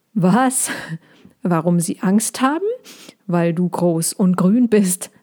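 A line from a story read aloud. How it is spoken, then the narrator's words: Hedgehog laughing. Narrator (German): lachte der Igel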